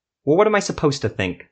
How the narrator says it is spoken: Silva spat

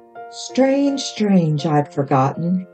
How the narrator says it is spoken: he said with a sigh

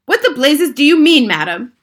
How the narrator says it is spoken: shouted Mr

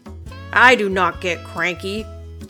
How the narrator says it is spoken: their dad said

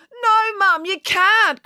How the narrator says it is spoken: cried

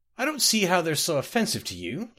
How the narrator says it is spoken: laughed one of the Bretons

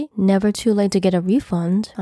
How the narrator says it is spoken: I said, my tone still mild, unwavering

